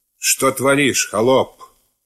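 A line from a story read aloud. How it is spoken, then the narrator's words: Menacing stern question. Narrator (Russian): Сам боярин Троекуров у смутьяна мужика грозно спрашивали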